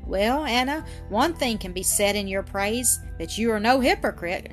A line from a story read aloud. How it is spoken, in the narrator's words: exclaimed Carrie Howard with a scornful curl of the lip